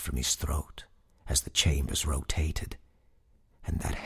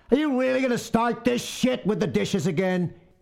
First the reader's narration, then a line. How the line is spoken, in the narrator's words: a man shouted